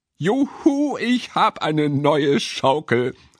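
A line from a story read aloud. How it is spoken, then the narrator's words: Girl calling. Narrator (German): rief das Mädchen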